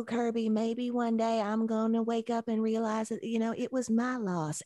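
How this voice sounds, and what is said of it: Pitch-perfect impression of an actress. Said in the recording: “my Annie McDowell impression ... Andy McDowell's is probably more pitch perfect than any of them.”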